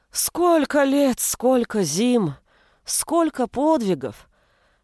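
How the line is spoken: Sighing. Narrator (Russian): вздохнула зеленая

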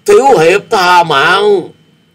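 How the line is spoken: Terrified strained cry. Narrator (Vietnamese): Tên này kinh hãi khôn xiết, gắng gượng gào lên

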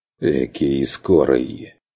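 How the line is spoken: Mocking. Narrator (Russian): насмешливо ответил наставник

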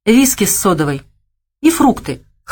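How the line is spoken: Snorting remark. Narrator (Russian): хмыкнул Савелий

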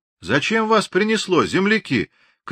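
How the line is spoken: Shouting with a smile. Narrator (Russian): крикнул Григорий, улыбаясь отцу

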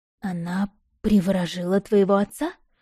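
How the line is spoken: Breathless exhale. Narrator (Russian): выдохнула

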